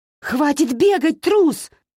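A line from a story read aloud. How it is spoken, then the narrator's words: Yelling angrily. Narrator (Russian): заорала она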